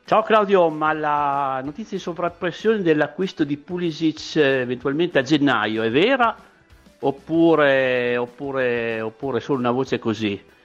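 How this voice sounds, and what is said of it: Speaks with a noticeable regional accent. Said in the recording (Italian): “che bell'accento che hai”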